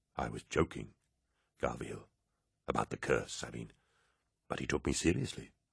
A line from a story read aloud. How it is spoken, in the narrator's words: Cinderman drew close to Loken and whispered